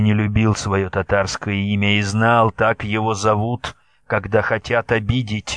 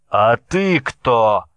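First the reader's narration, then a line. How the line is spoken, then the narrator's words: Shouting. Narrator (Russian): крикнул он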